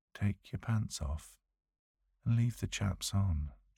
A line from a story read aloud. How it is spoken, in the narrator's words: commands softly